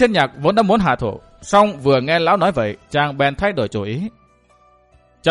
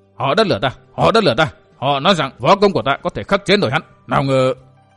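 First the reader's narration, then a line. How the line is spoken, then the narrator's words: Muttering. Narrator (Vietnamese): Vạn Tông Niên lẩm bẩm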